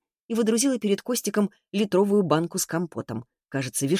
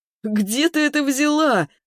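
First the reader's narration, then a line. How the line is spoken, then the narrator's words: Loud laughter. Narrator (Russian): расхохотался Костик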